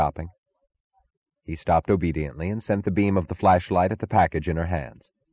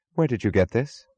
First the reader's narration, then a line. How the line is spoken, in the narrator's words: she asked